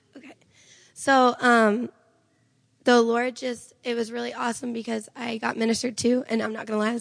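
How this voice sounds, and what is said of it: Hoarse, strained voice. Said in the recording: “I'm so sorry for my voice. I was screaming with a bunch of radical teenagers, and it just ate me up.”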